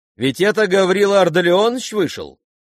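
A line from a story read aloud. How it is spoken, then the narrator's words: Sudden loud sharp question. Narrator (Russian): спросила она вдруг, громко, резко, прерывая своим вопросом разговор других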